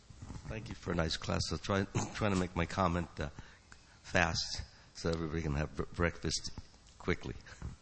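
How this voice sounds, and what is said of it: Slightly harsh, hoarse voice. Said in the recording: “my voice is a little harsh”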